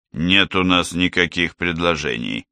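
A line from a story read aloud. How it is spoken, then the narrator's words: Sullen mutter. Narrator (Russian): угрюмо буркнул Бич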